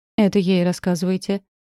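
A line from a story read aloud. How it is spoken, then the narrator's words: Ironic snort. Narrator (Russian): иронично хмыкнул Оникс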